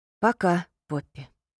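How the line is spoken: Sighing. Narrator (Russian): Вздохнув, Джаспер наконец сказал

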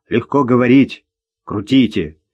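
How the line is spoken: Strained grumbling. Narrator (Russian): Ворчал завхоз, пытаясь повернуть елку и морщась от колючих веток

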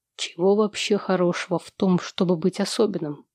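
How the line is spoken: Plain. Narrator (Russian): спросил он

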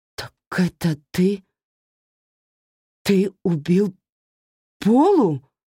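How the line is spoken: Stammering, forced out. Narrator (Russian): Заикаясь, выдавила она

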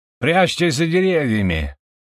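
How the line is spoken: Urgent rousing shout. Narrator (Russian): кричал Ракат, стараясь вывести своих воинов из ступора

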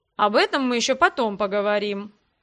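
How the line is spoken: Calm. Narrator (Russian): спокойно кивнул хозяин дома

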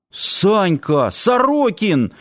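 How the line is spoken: Exclamation. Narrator (Russian): воскликнул Саам

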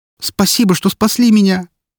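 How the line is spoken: Loud whimpering. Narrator (Russian): Спасенная громко захныкала

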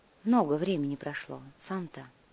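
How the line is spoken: Quiet, old witch. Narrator (Russian): тихо проговорила колдунья

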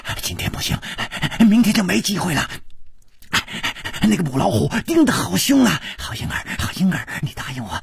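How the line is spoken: Heavy panting. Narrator (Chinese): 师传宗的喘息声更粗了

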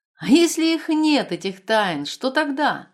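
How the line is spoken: Laughing. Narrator (Russian): смеялся Дукс

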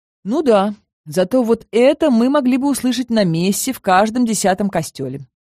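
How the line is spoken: Snort. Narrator (Russian): фыркнул Макс

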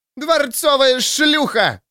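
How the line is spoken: Screaming. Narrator (Russian): завопила судья

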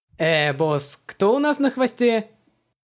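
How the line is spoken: Uncertain question. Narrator (Russian): Неуверенно переспросил маленький контрабандист

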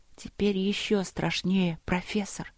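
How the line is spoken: Whisper. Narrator (Russian): прошептала

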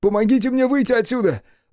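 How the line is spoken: Wailing scream. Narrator (Russian): завопил Хаси

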